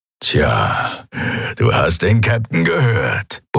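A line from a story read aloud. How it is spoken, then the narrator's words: Grumbled. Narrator (German): brummte er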